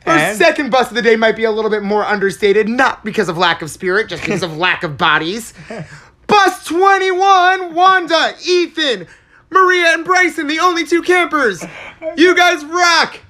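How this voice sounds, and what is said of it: Loud announcer voice. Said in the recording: “I've never heard you speak this loudly in my entire life ... I've never heard him speak this loudly ... It's my announcer voice.”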